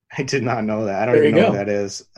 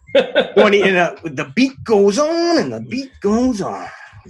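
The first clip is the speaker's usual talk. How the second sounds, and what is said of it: Macho Man impression. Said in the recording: “Macho Man... Can you do an impression?”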